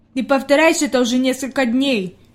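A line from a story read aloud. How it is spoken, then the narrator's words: Displeased grumble. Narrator (Russian): недовольно пробурчал Питер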